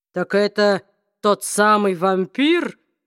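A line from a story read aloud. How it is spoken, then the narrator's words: Low, growling voice. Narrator (Russian): спросил он низким голосом, похожим скорее на рычание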